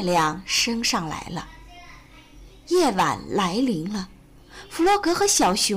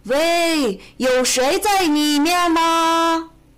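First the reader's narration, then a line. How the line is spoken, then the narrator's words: Calling down. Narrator (Chinese): 小猪 朝下面喊道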